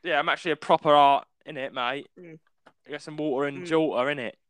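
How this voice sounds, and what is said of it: Put-on London EastEnders accent. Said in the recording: “That's not how I talk, don't worry ... people now might think that you're like an actual like Londoner ... That's kind of EastEnder.”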